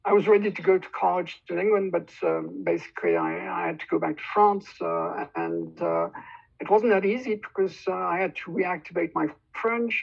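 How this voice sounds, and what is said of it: British English accent. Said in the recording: “I was British, and you can hear it in my accents”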